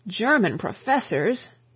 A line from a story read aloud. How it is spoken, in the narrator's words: groaned out the Chancellor, as though his nervous system had received a shock